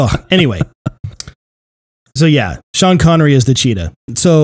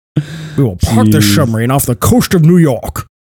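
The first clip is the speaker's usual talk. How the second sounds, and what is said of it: Imitates another person's voice. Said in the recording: “And you're Sean Connery.”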